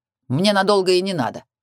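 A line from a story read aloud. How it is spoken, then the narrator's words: Snorting. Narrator (Russian): фыркнул Картер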